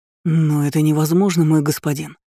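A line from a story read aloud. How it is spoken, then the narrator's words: Breathed, near tears. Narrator (Russian): едва не плача выдохнул первый говоривший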